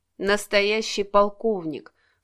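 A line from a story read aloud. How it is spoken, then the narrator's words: Snorting inner thought. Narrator (Russian): фыркнул Алексей про себя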